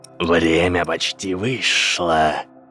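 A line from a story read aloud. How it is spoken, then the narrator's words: Hiss. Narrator (Russian): прошипел Волдеморт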